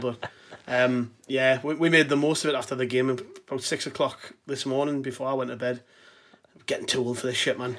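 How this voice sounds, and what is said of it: Rough, worn-out morning-after voice. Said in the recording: “tell by my voice, but I'm a little bit worse for wear today”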